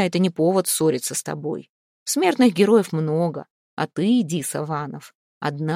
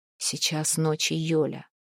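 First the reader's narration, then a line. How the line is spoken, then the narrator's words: Whispering. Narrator (Russian): зашептал он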